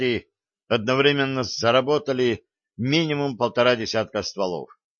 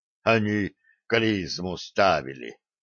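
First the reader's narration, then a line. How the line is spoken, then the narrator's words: Dazed muttering from behind. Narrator (Russian): забормотал сзади несколько очухавшийся лось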